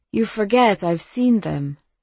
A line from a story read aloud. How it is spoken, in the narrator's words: Sonia said, calmly